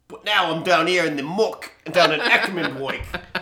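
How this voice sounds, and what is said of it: Put-on posh English-style accent. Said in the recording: “what was the voice I used for D&D last week? ... I'm quite upper crust English now ... I think I'm Italian. ... Is that German? ... Was that a German accent?”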